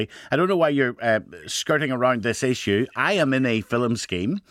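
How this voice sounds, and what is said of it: Tired, slightly slurred speech. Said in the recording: “I'm tired, by the way, Jim. That's why I'm just I'm slurring my words slightly.”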